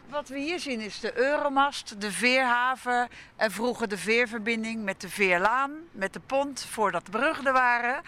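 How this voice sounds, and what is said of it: Slight Rotterdam accent. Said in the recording (Dutch): “Ik hoor een beetje een Rotterdamse accent”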